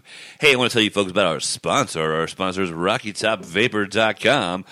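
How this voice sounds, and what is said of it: Radio announcer voice while sick. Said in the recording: “Since I'm sick, I'm using my radio voice. It doesn't measure up to the man's voice over there”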